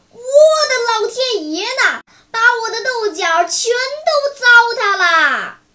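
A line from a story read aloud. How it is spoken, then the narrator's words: Old person's startled cry. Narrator (Chinese): 头发花白的头惊叫道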